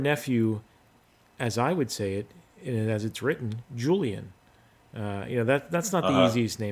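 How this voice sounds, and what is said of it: Usual voice. Nothing is said of it.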